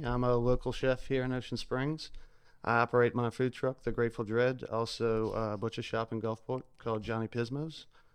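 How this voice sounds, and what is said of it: South Louisiana accent. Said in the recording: “I'm originally from South Louisiana. ... We couldn't tell. We yeah. couldn't tell with your accent.”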